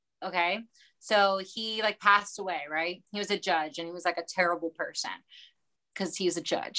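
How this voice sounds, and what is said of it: Light Baltimore accent. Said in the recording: “I'm from Baltimore, by the way, if you can't tell from the accent sprinkled in ... where is that accent?”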